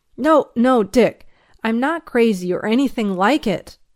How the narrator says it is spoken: I cried out in despair

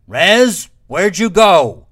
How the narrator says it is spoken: shouted

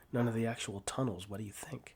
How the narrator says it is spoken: He asks with those laughing eyes

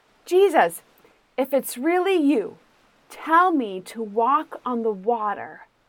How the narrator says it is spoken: he shouted to Jesus

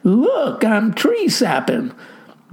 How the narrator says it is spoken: Buster cried

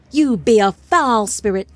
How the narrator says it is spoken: Tafar shouted

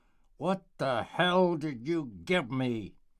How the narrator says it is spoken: Matilda, filled with hatred, spat out her words

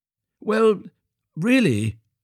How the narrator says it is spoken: cried Hans

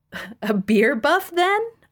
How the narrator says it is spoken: asked with a giggle

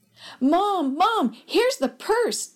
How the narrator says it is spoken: Derek exclaimed

